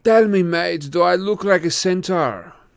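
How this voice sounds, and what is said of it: Strange British-like non-native accent. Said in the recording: “He had a strange accent. British, maybe, but also as though he had learned English as a second language.”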